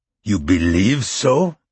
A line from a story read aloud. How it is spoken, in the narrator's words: Taj said, the volume of his voice rising noticeably